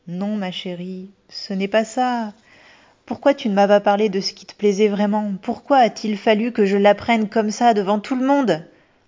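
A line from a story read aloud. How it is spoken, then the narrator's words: Choked, stifling a sob. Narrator (French): J'ai étouffé un sanglot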